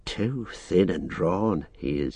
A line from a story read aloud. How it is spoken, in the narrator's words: he muttered